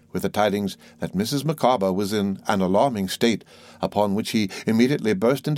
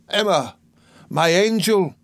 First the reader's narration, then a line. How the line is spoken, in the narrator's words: cried Mr